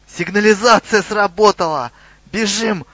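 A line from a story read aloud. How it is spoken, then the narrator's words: Yelling. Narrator (Russian): заорал Хрюгл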